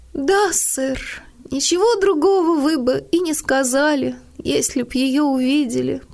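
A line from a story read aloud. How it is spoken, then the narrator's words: Through tears. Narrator (Russian): продолжала Нэнси сквозь слезы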